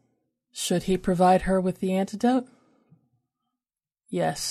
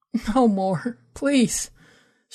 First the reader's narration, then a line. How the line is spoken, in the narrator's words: she whimpered, her heart pounding, her chest rattling as she drew a ragged breath